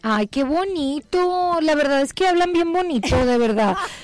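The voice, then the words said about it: Northern Mexican accent. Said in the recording (Spanish): “¡Qué norteña tan linda! Me encanta tu acento”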